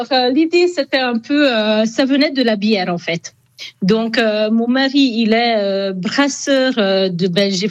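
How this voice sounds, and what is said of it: Hungarian accent in French. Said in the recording (French): “on entend à votre accent, vous êtes hongroise”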